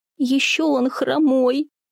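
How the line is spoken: Sobbing. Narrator (Russian): сквозь рыдание выговорила Оля

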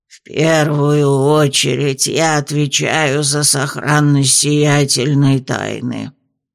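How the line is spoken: Creaky voice. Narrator (Russian): проскрипела она

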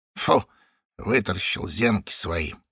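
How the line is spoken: Quiet old woman. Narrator (Russian): негромко сказала какая-то пожилая баба

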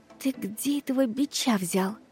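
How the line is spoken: Whispered anxious question. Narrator (Russian): Шепотом поинтересовалась я, с замиранием сердца

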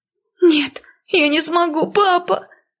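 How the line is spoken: Sobbing. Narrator (Russian): Рыдая

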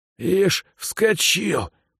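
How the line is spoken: Wheezing rasp. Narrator (Russian): прохрипел худощавый бандит

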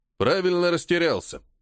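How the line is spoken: Wry snort. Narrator (Russian): хмыкнул полковник

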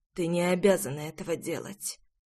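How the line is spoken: Hollow, muffled reply. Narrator (Russian): глухо ответил отец

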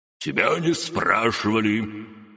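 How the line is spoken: Growled, faltering, trailing off. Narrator (Russian): рыкнул первый голос, запнулся и скомканно закончил свою речь

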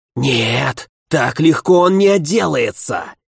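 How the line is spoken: Furious whisper. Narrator (Russian): Яростным шепотом отозвался другой

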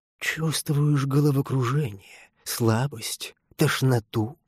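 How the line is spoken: Quiet question. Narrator (Russian): Все таким же тихим голосом спрашивал он лежащего

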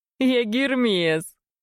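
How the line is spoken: Loud laughter. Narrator (Russian): расхохотался парень

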